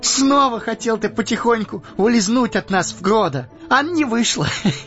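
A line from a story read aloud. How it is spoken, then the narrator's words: Laughing through tears. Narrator (Russian): Рассмеялся сквозь слезы Пипин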